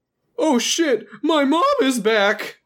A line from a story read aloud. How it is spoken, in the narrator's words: Randy shouted, his voice cracking in a humorous way